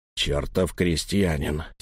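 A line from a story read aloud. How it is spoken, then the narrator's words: Hoarse repeat. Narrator (Russian): сипло повторил Лаум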